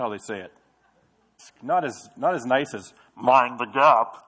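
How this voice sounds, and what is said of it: Usual voice. Nothing is said of it.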